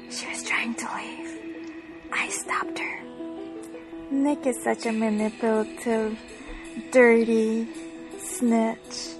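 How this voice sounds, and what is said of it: Creepy whispering. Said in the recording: “That's very creepy. All that fucking whispering.”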